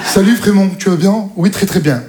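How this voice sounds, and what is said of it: Put-on Parisian French accent. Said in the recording (French): “ils ont tous accent parisien”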